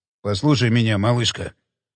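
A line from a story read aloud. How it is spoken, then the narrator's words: Calm voice in ear. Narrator (Russian): сказал удивительно спокойным голосом на ухо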